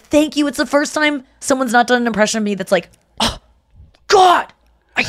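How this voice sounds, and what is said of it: Usual voice. Nothing is said of it.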